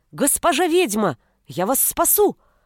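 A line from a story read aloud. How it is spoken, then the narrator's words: Snarling werewolf shouting. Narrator (Russian): крикнул оскаленный оборотень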